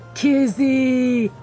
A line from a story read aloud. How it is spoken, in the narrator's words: the skiff driver boomed, his voice jubilant